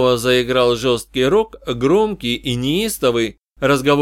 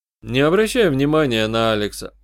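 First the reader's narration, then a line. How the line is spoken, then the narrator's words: Calm advice. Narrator (Russian): спокойно посоветовал я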